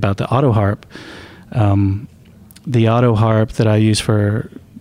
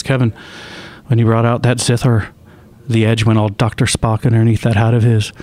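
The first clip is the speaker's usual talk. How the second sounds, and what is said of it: Imitated Irish accent. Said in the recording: “that's a perfect Irish accent ... he's obviously a cooler Irish guy than what I just did”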